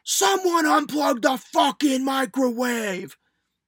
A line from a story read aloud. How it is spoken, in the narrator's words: he screams